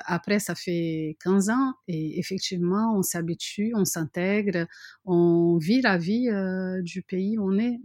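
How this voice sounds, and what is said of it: Brazilian accent in French. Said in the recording (French): “j'ai mon accent ... parler le français sans accent ... ma touche brésilienne”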